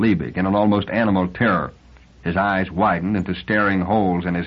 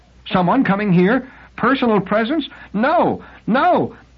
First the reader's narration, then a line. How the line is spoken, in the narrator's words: The second no was a shriek